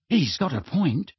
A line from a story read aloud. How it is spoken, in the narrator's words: said Ron quietly